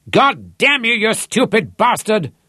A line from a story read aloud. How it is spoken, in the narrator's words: Rod bellowed into the phone